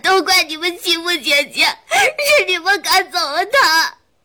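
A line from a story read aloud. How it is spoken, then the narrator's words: Bursting into loud sobs. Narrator (Chinese): 子豪 一下子大哭起来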